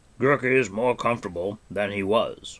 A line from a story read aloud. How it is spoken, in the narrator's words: the ancient man said in his deep voice